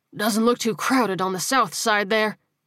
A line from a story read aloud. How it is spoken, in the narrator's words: he panted